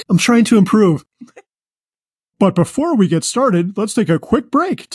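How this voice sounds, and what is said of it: Put-on radio announcer voice. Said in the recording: “Do I sound different? I'm talking in my radio voice”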